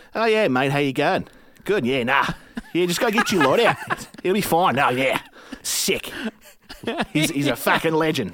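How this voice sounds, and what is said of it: Exaggerated Australian accent, long O's. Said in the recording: “I have a decent Australian accent... they do their long O's. It's almost like Oyo... I exaggerate it”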